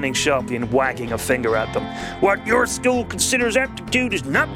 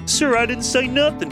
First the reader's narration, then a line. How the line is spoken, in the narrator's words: pleaded Bodega, mystified